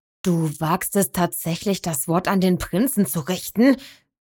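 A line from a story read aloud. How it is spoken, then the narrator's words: Growl. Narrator (German): knurrte der Reiter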